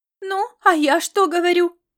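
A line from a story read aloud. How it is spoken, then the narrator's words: Exclaimed. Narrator (Russian): воскликнула Лилиан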